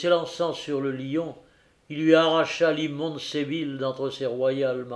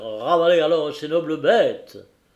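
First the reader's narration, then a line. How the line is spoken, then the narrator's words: Thunderous shout. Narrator (French): cria-t-il d'une voix de tonnerre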